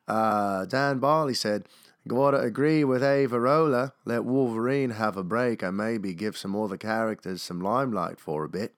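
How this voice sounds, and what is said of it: Poor put-on Australian accent. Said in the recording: “my terrible Australian accent”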